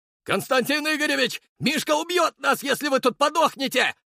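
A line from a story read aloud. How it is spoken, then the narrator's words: Shouting. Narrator (Russian): закричал Серый, подбежав к Архарову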